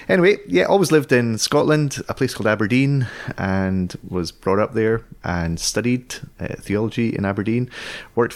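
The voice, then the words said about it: Scottish accent. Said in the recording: “I may sound Scottish ... half Scottish, half Dutch”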